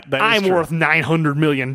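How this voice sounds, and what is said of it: Imitation of a poor American accent. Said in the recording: “Maybe your American accent is not up to snuff ... His American accent is”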